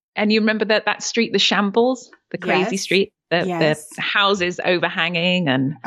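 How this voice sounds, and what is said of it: British Yorkshire accent. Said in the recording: “I love your accent ... I am from the UK. I was born in Yorkshire.”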